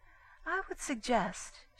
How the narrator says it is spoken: she said sweetly

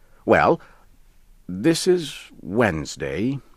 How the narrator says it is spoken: he said slowly

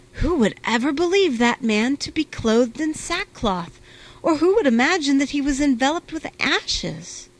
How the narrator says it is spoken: people exclaimed

